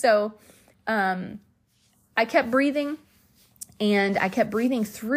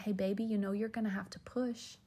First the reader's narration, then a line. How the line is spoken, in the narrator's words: the Holy Spirit whispered to me, and he said